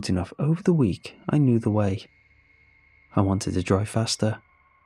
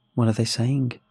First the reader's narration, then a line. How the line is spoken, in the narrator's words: His voice was still as neutral as ever